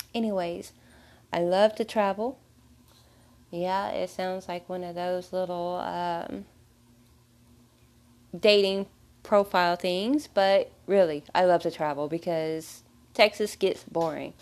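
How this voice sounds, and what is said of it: Texas accent. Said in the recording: “I was born in Texas. So excuse the accent.”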